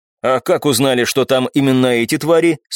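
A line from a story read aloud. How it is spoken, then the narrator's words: Plain. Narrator (Russian): спросил я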